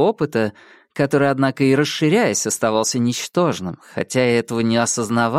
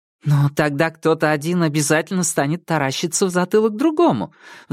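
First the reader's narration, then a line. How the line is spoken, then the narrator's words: Heated objection. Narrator (Russian): в запальчивости возразила я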